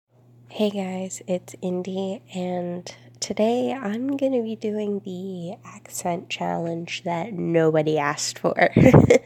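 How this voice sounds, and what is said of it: Tired, congested voice. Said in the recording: “I am quite tired ... I'm like super congested and probably don't sound like myself”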